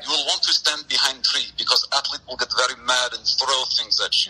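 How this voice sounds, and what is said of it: Put-on Russian accent. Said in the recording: “have a Russian accent”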